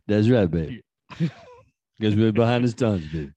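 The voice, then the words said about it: Deliberately deep voice. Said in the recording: “It's a deep voice.”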